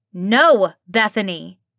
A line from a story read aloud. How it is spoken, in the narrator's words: Angel roared